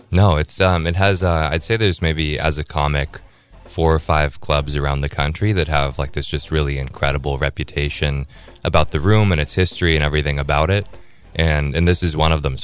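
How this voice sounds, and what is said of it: Great radio voice. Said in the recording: “You got a great radio voice.”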